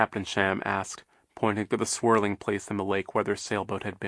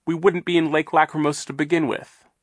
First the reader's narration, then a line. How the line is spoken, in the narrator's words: Violet said fiercely